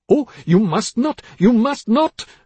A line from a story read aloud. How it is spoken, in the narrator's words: her mother cried